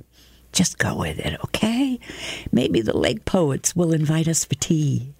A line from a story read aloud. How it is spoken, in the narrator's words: Juliet whispers to me